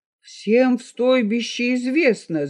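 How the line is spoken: Indignant. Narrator (Russian): заговорил он возмущенно

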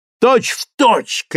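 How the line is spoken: Admiring shout. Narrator (Russian): крикнул восхищенный Магнитский

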